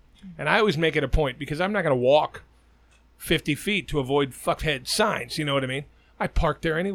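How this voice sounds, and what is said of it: Usual voice. Nothing is said of it.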